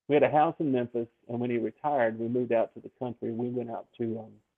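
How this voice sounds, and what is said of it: Smooth Southern Memphis accent. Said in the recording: “I sound like a Memphian ... that smooth Southern dialect that everybody talks about so much”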